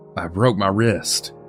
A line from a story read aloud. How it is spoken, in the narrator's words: he sputtered out